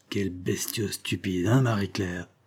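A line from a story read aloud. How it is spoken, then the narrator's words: Low voice. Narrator (French): s'adressant à sa servante à voix basse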